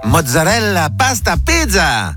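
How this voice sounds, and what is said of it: Put-on Italian accent. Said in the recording (French): “obligés de prendre l'accent quand ils cuisinent italien”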